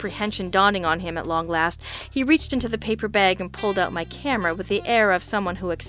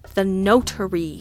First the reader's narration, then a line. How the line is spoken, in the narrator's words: I said through gritted teeth